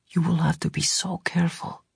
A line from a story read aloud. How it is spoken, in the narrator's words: Tomas whispered